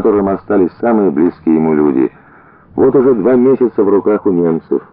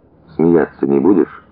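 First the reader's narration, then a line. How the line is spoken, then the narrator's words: Timid question. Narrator (Russian): робко спросил Воронцов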